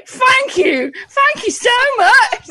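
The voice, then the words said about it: Put-on Cockney English accent. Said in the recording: “Cockney accent”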